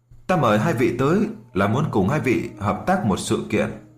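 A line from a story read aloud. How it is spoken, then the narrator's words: Smiling speech. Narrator (Vietnamese): lão quỷ mới mỉm cười nói ra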